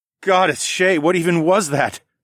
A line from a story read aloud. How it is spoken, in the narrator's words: I blurted out ecstatically